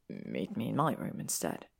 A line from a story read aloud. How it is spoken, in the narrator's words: he said softly